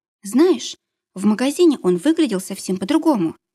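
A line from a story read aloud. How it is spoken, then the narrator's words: Babbling, timid. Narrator (Russian): пролепетала она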